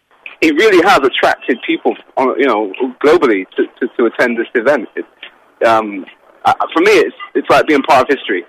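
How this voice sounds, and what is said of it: London English accent. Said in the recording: “people hear your accent and they ask, where are you from? ... You tell them you're from London”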